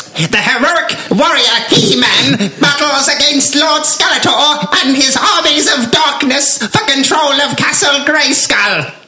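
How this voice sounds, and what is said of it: Cartoon Skeletor villain voice. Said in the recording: “I'm going to pick my own impression ... I've decided to go for cartoon Skeletor”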